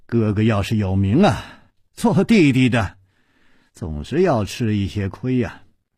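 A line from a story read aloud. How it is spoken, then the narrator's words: Hesitant sigh. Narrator (Chinese): 楚留香沉默了一会儿，才叹气了一声说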